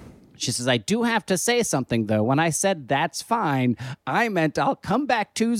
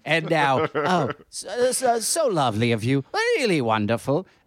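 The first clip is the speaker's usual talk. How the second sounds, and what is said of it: Bad British accent. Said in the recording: “Most British response possible... That's the worst accent.”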